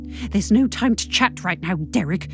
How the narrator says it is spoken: I hiss

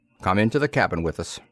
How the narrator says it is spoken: said curtly

